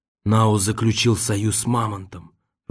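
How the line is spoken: Whispered. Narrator (Russian): прошептал Нам

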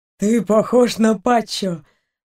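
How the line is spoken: Doctor grumbling, hiding joy. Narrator (Russian): пробурчал доктор, скрывая свою радость

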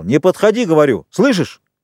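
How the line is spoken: Shouting. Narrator (Russian): Роджер кричал

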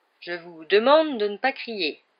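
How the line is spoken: Grave deep voice. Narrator (French): dit Lockhart d'une voix grave

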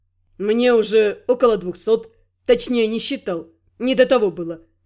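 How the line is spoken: Careless chuckle. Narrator (Russian): беспечно хмыкнул Рент

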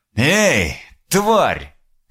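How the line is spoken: Shouting after someone. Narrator (Russian): крикнул он ей вслед

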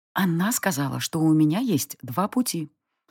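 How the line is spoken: Whispered. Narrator (Russian): прошептала мне девушка

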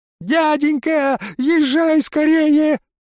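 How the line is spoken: Devil shouting. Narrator (Russian): закричал черт

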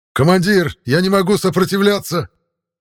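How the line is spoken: Yell. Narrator (Russian): заорал Михаил

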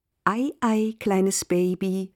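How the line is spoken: Plain. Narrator (German): sagte Sissy Caffrey

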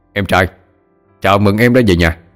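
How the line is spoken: Laughing, welcoming. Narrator (Vietnamese): Cậu ta cười lớn mà nói

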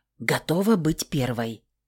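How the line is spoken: Whisper. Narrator (Russian): прошептала Хильда

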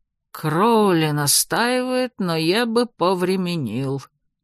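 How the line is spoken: Gloomy old man, through teeth. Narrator (Russian): мрачно процедил старик Фрис

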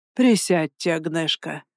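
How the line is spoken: Exhaled, relieved. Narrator (Russian): наконец-то выдохнул он

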